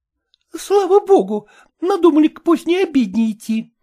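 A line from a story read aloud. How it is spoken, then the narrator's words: Exclaimed. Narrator (Russian): воскликнула она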